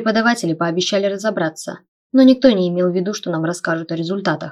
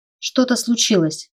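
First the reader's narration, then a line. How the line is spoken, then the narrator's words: Uncertain mutter. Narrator (Russian): пробормотала я, неуверенная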